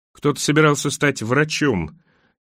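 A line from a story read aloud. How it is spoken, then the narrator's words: Grim careful joke. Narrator (Russian): мрачно пошутила Аннабель, как если бы вела разговор с самоубийцей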